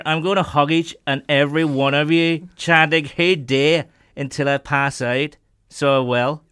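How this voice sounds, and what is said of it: Put-on Northern Irish accent. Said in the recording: “that's supposed to be a Northern Irish accent. ... That's quite a good”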